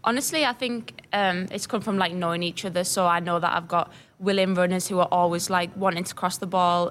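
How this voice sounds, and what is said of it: Slight English accent. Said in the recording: “you have a little bit of an accent from England, Billingham, England”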